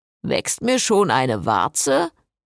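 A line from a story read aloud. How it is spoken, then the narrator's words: Mocking. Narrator (German): spottete Jason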